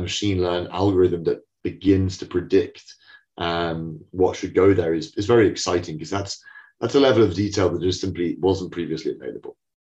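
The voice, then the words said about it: British accent. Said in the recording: “my exotic accent,... we're a London business. And three founders are also British”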